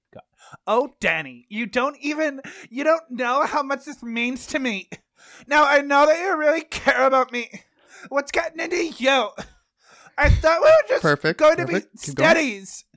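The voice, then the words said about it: Drunk slurred valley girl accent. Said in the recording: “slurred speech. You're clearly drunk ... I need, like, a valley girl accent. ... Clearly drunk, but I need those highs and those lows.”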